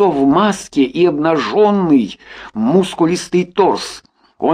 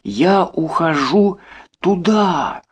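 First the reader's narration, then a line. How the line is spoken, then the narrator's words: Very quiet and slow. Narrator (Russian): очень тихо и медленно сказала женщина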